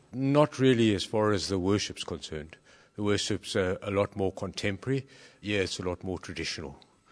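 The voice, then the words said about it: South African accent. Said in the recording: “From South Africa, I detect by the accent.”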